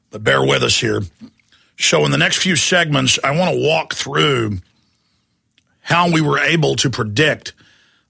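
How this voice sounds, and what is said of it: Deeper, hoarse, blown-out voice. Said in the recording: “my voice sounds a little bit deeper or blown out today, I've got real bad allergies right now ... I sound more toad-like than usual ... my voice is shot”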